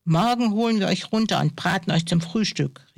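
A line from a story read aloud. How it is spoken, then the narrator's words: Called out. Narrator (German): rief der andere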